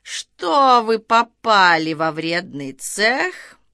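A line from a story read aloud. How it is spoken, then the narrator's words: Menacing, laughter cut off. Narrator (Russian): Оборвав смех, он грозно произнес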